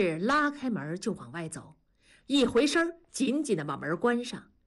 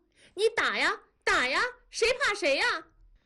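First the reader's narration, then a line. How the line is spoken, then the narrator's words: Wild screaming. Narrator (Chinese): 女孩狂叫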